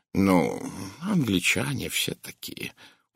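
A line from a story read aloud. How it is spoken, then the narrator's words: Soothing tone. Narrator (Russian): умиротворяющим тоном произнес Пуаро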